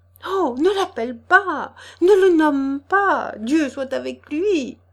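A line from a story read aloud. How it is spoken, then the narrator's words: Trembling frightened exclamation. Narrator (French): s'écria-t-elle en blêmissant et tremblotant des lèvres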